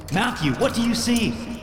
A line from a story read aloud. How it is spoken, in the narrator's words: I shouted